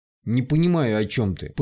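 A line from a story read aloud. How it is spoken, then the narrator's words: Hostile, through clenched teeth. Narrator (Russian): процедила недобро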